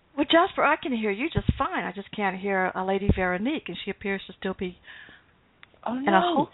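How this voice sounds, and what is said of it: Southern American accent. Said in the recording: “She's on the East Coast, and I'm in the South, so maybe she couldn't understand my accent”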